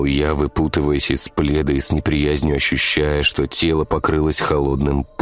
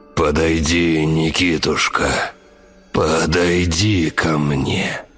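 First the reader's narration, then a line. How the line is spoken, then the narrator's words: Loud resonant old voice. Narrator (Russian): дед неожиданно громким звучным голосом сказал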